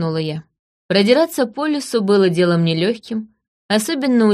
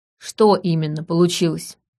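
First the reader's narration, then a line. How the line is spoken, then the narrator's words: Gloomy question. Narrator (Russian): мрачно спросила я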